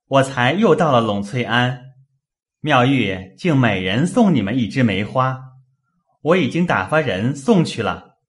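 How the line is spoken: Smiling. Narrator (Chinese): 宝玉笑向宝钗、黛玉等道

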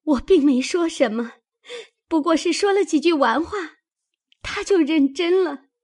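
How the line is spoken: Crying. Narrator (Chinese): 紫鹃哭道

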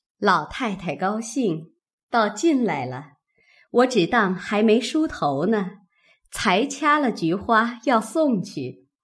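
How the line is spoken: Hurried, laughing. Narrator (Chinese): 李纨 笑道

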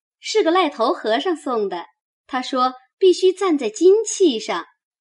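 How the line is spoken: Smiling. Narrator (Chinese): 婴儿笑道

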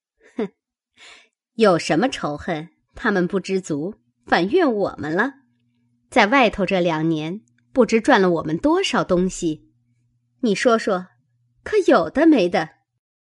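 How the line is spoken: Sneering. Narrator (Chinese): 偶官冷笑道

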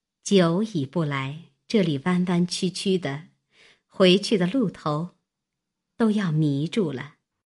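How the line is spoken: Laughing. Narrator (Chinese): 妙玉笑道

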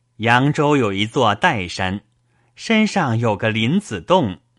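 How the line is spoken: Improvising, suppressing laughter. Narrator (Chinese): 宝玉见问，便忍着笑，顺口诌道

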